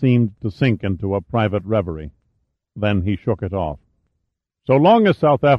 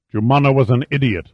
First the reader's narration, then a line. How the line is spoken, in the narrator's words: Duval snapped